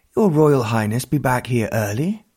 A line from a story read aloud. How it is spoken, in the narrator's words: he said breathlessly